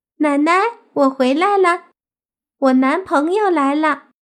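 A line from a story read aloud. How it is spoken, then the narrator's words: Happy, excited calling out. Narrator (Chinese): 小狐妖蹦蹦跳跳的很开心，一边走一边喊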